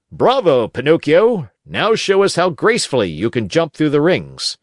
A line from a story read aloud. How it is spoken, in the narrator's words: the manager, who cried out